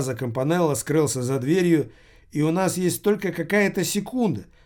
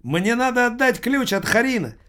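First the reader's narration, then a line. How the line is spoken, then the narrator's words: Shouting while running. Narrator (Russian): закричал он на бегу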